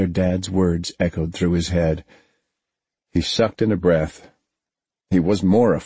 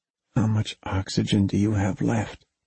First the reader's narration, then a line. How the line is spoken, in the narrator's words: Jeff whispered